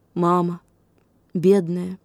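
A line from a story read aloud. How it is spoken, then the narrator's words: Quiet addition. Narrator (Russian): тихо прибавил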